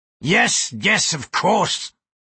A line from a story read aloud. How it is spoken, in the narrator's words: he said testily